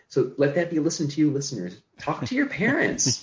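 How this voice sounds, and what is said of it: Lecturing teacher-like voice. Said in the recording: “you're using your teacher voice a little bit there”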